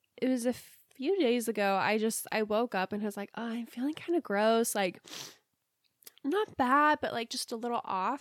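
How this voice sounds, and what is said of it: Sick, rough-sounding voice. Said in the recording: “So I was sick, in case you can't tell by my voice. ... I just sound gross.”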